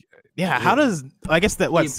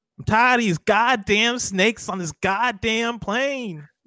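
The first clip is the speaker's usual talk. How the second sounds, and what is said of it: Samuel L. Jackson impression. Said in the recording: “In your best Nick Fury impression... Samuel Jackson?... I just can't do a Samuel L. Jackson one.”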